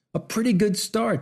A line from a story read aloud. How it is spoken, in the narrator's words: shouted the man